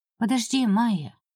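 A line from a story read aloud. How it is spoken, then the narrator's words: Gentle request. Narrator (Russian): мягко попросила хозяйка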